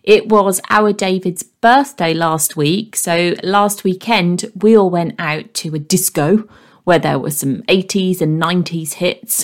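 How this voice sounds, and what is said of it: Croaky, hoarse voice. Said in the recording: “my voice is a bit croaky or a bit funny sounding at times ... we sang at the top of our voice and I'm still feeling it even today ... if I am a bit croaky”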